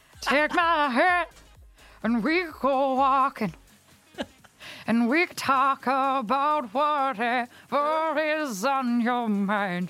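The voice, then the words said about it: Imitates another person's singing voice. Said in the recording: “do that impression again... This is Ronan Keating singing Picture This”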